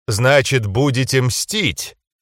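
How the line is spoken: Snorting, smirking. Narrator (Russian): хмыкнул Атон

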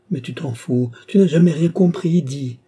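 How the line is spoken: Shout forced into whisper. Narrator (French): Elle crie, tout en obligeant sa voix à murmurer

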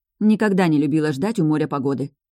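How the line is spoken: Irritated grumble. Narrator (Russian): буркнула я, борясь с раздражением

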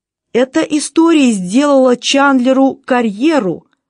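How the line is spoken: Exclaiming. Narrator (Russian): воскликнул Скотт

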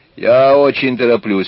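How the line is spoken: Irritated snap. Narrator (Russian): раздраженно бросила

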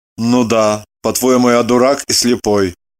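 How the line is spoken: Grumbling. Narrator (Russian): Проворчал Лагутин

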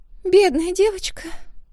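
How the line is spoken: Hoarse wheeze, muffled by hands. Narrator (Russian): просипела рыжая, прижав ладонями рот

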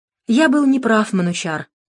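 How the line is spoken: Sighed. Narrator (Russian): Дронго вздохнул

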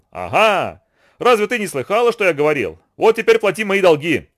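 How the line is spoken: Shout. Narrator (Russian): Ананси крикнул

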